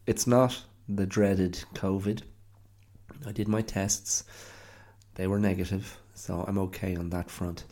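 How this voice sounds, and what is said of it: Congested, sick-sounding voice. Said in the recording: “as you can hear by my voice, I'm still somewhat smothered by a cold ... something on the throat, on the chest, in the sinuses”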